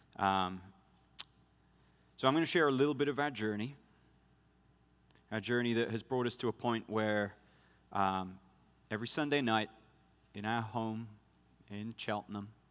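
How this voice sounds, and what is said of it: Mixed British-American accent. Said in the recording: “who's the guy with the weird accent? ... a Brit lives for 12 years in Idaho and then is deployed back to Britain. You get a mess. ... I don't even know what accent I have.”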